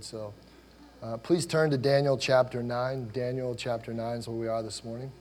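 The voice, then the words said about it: Voice strained from illness. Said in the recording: “my voice is a little bit out today ... Feeling a little bit under the weather today”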